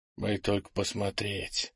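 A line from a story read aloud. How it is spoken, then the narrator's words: Whispered. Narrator (Russian): прошептал Крис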